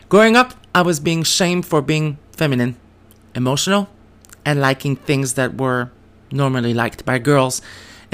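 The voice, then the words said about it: French Canadian accent. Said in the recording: “growing up in a small French town of New Brunswick, Canada, yes, that's why I have an accent”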